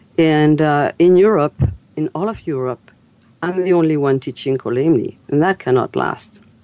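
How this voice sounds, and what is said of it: French accent. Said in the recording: “as you've heard my accent, I'm French.”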